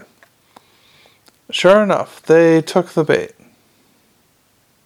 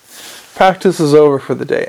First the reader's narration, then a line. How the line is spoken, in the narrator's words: Ender said